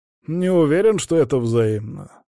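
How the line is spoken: Mocking. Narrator (Russian): насмешливо бросил Джиро

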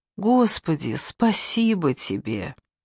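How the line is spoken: Whispered. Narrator (Russian): прошептала

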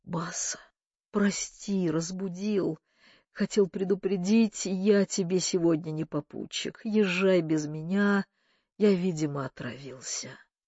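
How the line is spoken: Strained, forced out. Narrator (Russian): выдавил

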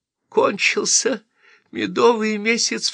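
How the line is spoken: Sobbing. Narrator (Russian): всхлипывала

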